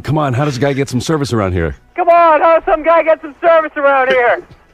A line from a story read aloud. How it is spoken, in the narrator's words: scream